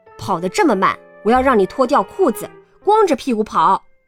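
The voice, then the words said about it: Fierce, harsh voice. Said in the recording (Chinese): “用很凶的声音说道”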